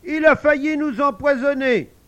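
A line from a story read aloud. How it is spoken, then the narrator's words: Exclaims. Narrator (French): Armel s'écrie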